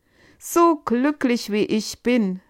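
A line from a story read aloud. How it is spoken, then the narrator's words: Exclaiming. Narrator (German): rief er aus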